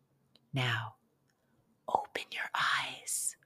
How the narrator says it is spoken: whispered Grandpa

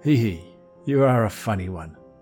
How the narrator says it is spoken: chuckled the inspector

